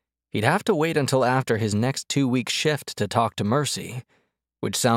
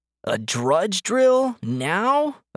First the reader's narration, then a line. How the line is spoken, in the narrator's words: a gangly boy whined